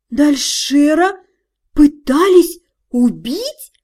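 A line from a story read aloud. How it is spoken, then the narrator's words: Slow drawl. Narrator (Russian): Медленно протянула я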